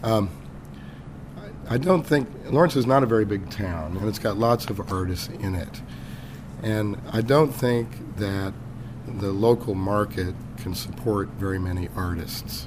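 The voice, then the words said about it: Hoarse, weak voice from laryngitis. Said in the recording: “It's my laryngitis. So I apologize for that. I'll try to speak up.”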